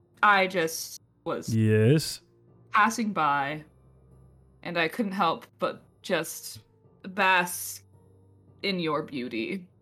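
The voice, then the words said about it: Acted drunk, slurring speech. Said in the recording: “feign being absolutely shit faced ... Best drunk impersonation”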